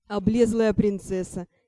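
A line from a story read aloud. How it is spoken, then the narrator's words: Giggling. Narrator (Russian): хихикнул Ар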